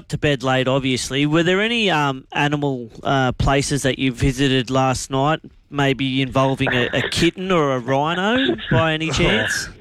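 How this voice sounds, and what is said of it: Nasal-sounding voice. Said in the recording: “you sound awfully nasally like Brini today”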